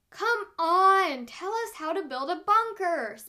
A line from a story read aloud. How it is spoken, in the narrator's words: Spencer whines